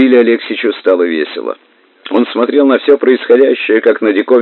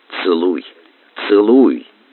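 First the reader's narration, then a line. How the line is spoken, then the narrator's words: Interpreter whispering. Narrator (Russian): шептал толмач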